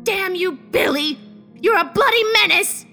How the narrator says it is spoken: Mavis shouted in anger, crying

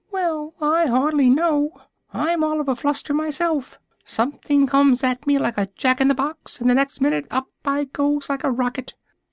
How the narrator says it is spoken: a little feeble squeaking voice, that's Bill, thought Alice, which said

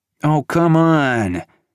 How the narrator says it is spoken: Cavalon groaned

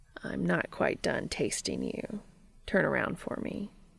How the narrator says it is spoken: Cass smiles and murmurs

